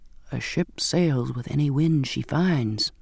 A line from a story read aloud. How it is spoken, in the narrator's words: whispered